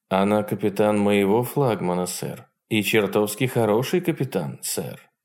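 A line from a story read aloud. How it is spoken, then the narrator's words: Calm reply. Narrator (Russian): ответил Сарнов тем же спокойным тоном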